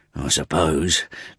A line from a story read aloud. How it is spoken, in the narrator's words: muttered Gabriel